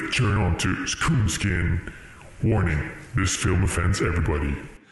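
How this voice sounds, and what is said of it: Imitates a movie character's voice. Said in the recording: “You sound exactly like the main character of the movie... this was a homage to Barry White... the horrible movie voice”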